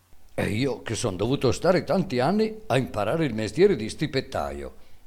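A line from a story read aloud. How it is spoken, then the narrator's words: Boy exclaiming. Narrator (Italian): esclamò il ragazzo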